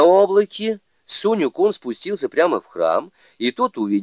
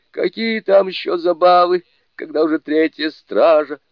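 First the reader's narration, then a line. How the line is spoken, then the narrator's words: Grumbling. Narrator (Russian): заворчал Шасен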